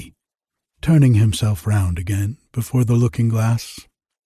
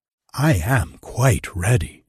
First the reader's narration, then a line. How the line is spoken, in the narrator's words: answered the emperor